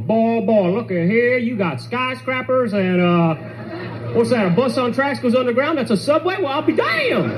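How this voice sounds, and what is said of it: Put-on Southern US accent. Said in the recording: “people have a southern accent, obviously, and they talk like this ... you only want to talk with a southern accent when you're in the South ... It just sounds stupid, the accent”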